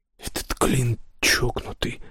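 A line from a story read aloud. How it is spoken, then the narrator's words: Audible whisper. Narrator (Russian): прошептал Роб Саймону, но так, чтобы Кристофер тоже слышал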